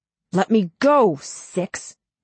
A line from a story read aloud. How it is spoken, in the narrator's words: Nine growls